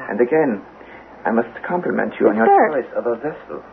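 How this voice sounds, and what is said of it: German accent. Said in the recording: “The German accent.”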